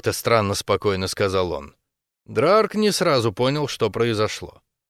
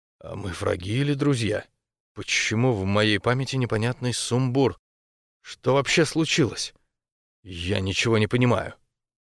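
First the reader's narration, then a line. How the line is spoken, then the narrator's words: Quiet surprised mumble. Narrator (Russian): Драрг с удивлением тихо пробормотал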